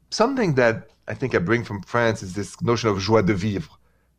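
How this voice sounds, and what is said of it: French accent in English. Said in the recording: “my accent is from France ... The accent, please bear with it, it stayed with me.”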